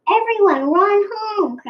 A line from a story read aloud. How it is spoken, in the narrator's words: cried Nene